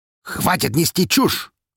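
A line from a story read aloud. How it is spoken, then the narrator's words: Angry bark. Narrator (Russian): рявкнул Скворцов, явно выходя из себя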